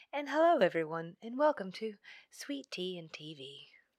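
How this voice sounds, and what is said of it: Calm, toned-down public radio voice. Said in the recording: “your NPR voice ... You just take it down a notch”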